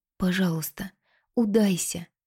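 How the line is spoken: Whispered. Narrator (Russian): шепнула Кинта

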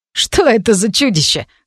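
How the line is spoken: Chuckled. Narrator (Russian): хохотнул Стайль

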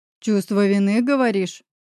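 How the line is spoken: Growled. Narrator (Russian): прорычал Павел

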